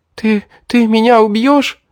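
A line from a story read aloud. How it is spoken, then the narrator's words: Sobbing. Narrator (Russian): разрыдалась девушка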